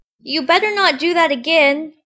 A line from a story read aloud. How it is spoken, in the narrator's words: said to herself, and shouted out